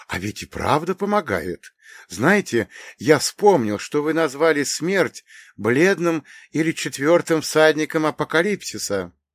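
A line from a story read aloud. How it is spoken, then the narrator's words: Joyful. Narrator (Russian): радостно произнес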